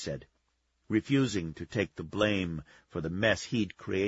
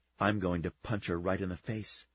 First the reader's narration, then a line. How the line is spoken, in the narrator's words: she said